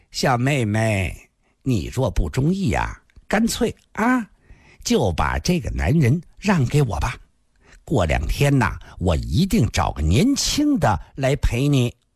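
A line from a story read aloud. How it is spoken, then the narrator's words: Tinkling laugh. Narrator (Chinese): 他银铃般的又笑了，接着说道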